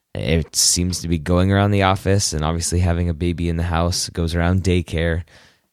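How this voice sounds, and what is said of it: Congested voice from a cold. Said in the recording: “hear it in my voice. I have a little bit of a cold.”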